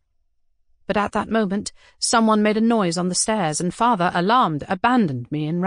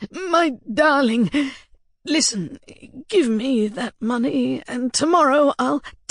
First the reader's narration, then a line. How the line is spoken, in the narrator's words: he said in a shaking voice